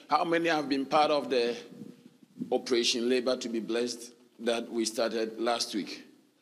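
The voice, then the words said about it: Slightly hoarse voice. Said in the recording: “my voice is a bit hoarse today”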